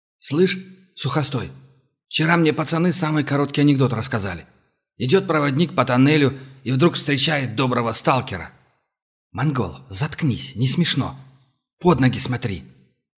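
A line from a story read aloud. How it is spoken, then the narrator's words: Gruff muttering young man. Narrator (Russian): Буркнул в ответ долговязый нескладный парень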